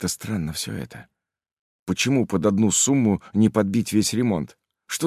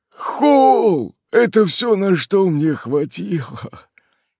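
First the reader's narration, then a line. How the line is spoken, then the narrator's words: Old man's hoarse rasp. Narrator (Russian): старикан прохрипел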